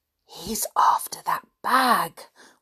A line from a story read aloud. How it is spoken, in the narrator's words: whispered